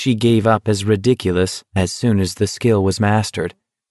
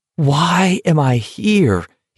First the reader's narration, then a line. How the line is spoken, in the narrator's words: He asked himself desperately